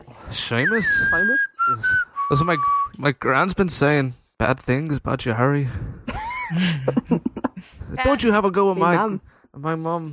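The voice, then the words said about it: Poor put-on Irish accent. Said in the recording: “That is a horrible Irish accent. ... It's horrible. It sounds worse than my Scottish pirate.”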